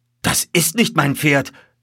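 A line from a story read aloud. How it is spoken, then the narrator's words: Calling out. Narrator (German): rief der Oberst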